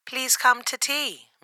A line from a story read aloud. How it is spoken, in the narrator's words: Miss Spider cried